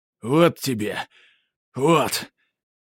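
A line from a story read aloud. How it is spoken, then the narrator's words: Fat man wheezing mid-blows. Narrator (Russian): хрипел толстяк, нанося удар за ударом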